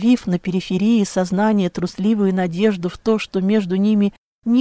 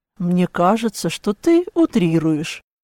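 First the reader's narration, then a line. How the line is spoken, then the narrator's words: Calm reply. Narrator (Russian): спокойно отозвался Клаус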